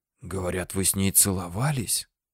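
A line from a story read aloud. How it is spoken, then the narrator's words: Whisper. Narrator (Russian): прошептал он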